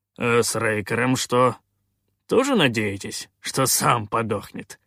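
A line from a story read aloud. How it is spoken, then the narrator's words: Smirking grunt. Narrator (Russian): хмыкнул Калаан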